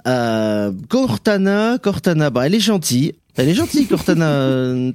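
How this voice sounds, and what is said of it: Southwestern French accent. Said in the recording (French): “mon accent du Sud-Ouest euh, que certains pourront relever”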